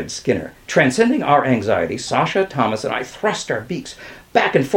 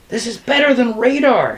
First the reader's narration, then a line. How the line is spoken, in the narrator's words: shouted Kresge